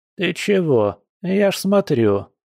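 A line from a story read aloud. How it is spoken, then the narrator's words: Old woman grumbling. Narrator (Russian): проворчала баба Эля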